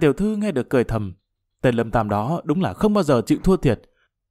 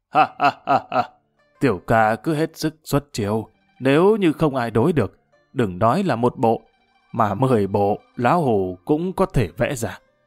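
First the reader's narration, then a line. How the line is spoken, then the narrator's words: Old man, hearty laughter. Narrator (Vietnamese): Lão già cười lớn, hào sảng nói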